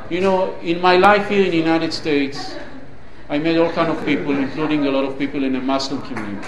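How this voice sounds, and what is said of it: Israeli accent. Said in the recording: “when people heard my accent, I could not hide it. They know I'm either from Israel ... you're some kind of Middle Eastern, and you're not an Arab.”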